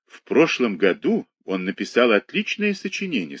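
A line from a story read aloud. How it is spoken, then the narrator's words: Plain. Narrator (Russian): сказал медик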